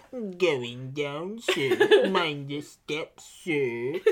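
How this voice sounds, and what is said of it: Droopy Dog cartoon voice impression. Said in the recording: “my Droopy Dog impression ... Ah, that's pretty good.”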